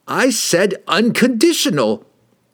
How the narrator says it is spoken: He shrieked

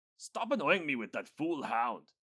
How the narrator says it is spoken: Professor Wiedelmeyer said crossly

